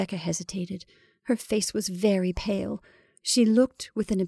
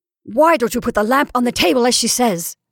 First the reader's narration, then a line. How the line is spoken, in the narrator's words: asked Caroline, almost fiercely